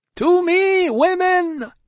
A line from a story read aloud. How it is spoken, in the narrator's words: cried Madame, his wife